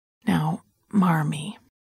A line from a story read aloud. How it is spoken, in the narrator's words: I said, leaning down to talk quietly to her